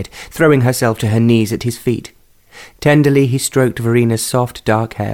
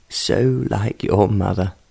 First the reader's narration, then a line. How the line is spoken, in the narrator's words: in a voice that was choked with emotion